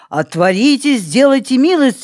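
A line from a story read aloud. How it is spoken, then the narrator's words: Muffled deep bass. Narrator (Russian): говорил кто-то за воротами глухим басом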